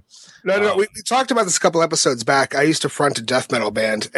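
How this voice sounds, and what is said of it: Gravelly, raspy damaged voice. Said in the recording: “you got a great voice for like, okay, I'm gonna rough you up ... I did so much damage to my vocal cords that this is what comes out now ... It sounds like he gargles razor blades on a daily basis.”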